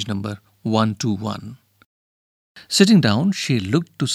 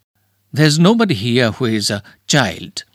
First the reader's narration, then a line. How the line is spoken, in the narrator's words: said haughtily